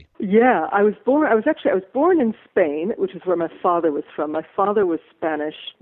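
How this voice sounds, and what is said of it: American, not native British accent. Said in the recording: “Your accent is clearly not native British, so you're from the USA.”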